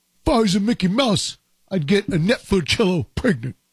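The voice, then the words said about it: Imitates another person's voice. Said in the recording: “that impression, but it was Tracy Morgan”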